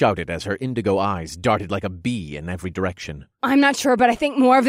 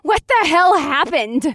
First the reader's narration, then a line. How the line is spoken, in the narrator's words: Beatrix squealed, and her voice cracked